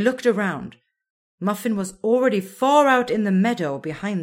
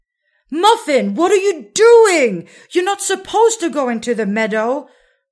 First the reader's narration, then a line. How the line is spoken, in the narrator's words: Raga shouted aloud